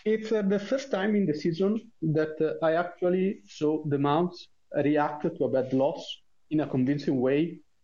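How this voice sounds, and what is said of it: Italian accent in English. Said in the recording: “sorry for my accent. I'm Italian”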